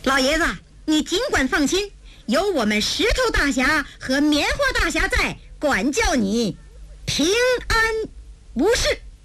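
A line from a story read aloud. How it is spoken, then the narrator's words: Loud. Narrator (Chinese): 文清闻听大声说道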